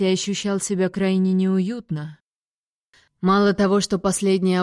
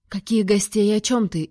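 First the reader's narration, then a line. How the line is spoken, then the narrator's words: Frightened child mumbling. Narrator (Russian): испуганно пробормотала малышка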